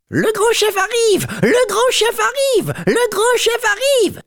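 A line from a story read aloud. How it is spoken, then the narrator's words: Shouted while running. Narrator (French): criait-il en courant à pleine vitesse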